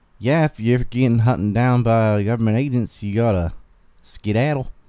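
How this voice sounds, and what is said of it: Southern US accent with twang. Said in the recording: “most of it sounds like how I'm speaking right now. That is the Southern accent... the amount of twang I have”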